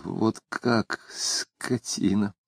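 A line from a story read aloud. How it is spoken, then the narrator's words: Muttering. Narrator (Russian): Макаров пробормотал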